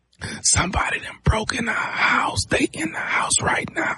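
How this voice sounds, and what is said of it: Whispering. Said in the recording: “why in the hell you whispering?”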